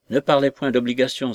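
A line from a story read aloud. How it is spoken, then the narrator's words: Interrupting exclamation. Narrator (French): s'écria Jones en l'interrompant sur le champ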